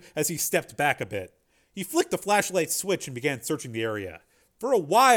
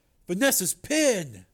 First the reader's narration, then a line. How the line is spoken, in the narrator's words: Joe exclaimed